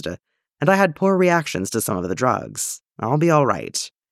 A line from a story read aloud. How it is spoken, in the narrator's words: he says, grimly amused